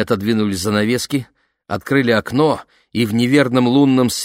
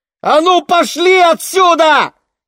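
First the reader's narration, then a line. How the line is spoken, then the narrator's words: Shouting. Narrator (Russian): крикнула Лени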